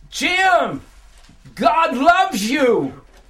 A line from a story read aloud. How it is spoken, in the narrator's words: this voice and it cried out to me